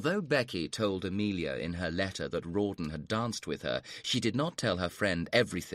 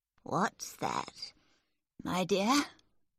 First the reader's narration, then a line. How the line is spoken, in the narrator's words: Miss Crawley asked sleepily